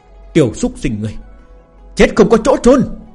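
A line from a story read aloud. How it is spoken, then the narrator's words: Screaming in rage. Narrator (Vietnamese): Lão tổ hồ tộc gào thét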